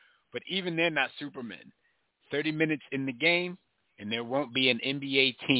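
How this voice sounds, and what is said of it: Usual voice. Nothing is said of it.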